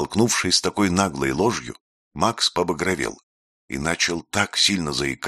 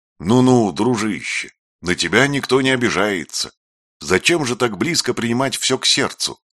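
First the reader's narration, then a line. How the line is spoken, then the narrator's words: Shouted while running. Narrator (Russian): крикнул Афанасий, бегая от Макса вокруг стола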